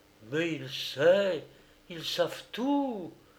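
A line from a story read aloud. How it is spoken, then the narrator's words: Silent inner exclamation. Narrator (French): s'écria-t-il mentalement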